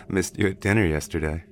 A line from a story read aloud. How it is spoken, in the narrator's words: he said with a chuckle